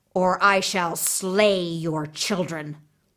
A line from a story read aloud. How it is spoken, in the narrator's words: he snarled